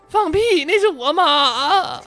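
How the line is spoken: Crying. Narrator (Chinese): 耗子也哭了

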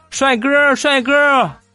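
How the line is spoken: Calling out. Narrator (Chinese): 后边有人喊

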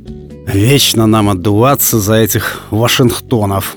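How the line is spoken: Sighing. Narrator (Russian): Вздохнул директор

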